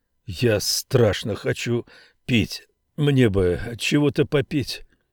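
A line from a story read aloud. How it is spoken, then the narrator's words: Hoarse voice. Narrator (Russian): хрипловатым голосом Саймон проговорил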